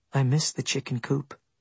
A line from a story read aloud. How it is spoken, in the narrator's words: she said softly